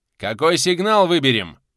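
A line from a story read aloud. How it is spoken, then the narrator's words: Shout after train whistle. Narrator (Russian): крикнул он, переждав длинный гудок локомотива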